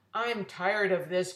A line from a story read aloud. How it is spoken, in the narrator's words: growled Mr